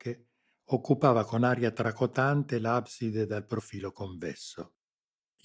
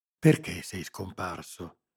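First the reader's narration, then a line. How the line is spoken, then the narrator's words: Whispered question. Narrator (Italian): chiesi bisbigliando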